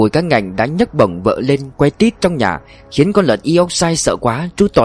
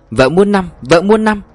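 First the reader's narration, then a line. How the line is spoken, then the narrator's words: Ecstatic shouting. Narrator (Vietnamese): mùi cá ngạnh sướng quá hét toáng lên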